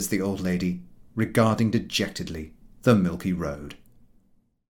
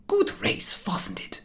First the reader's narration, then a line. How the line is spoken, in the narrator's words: remarks, panting